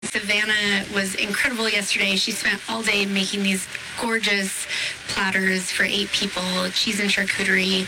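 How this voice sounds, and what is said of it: Hoarse voice. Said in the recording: “Sorry for my hoarse voice... It's not my radio voice”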